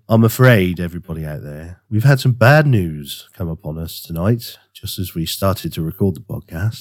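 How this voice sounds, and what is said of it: Nasal, congested voice. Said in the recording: “I've got a little bit of a cold. ... You sound a little bit nasal.”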